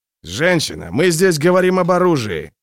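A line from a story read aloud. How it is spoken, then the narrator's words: Growling. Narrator (Russian): прорычал Гловард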